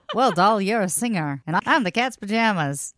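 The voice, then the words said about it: 1930s radio announcer voice. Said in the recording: “My 1930s radio voice”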